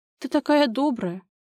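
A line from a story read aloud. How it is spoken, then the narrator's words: Sobbing. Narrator (Russian): Она всхлипнула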